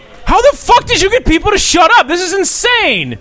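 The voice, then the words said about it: Yelling. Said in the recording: “I'm not yelling at you. I'm yelling at myself.”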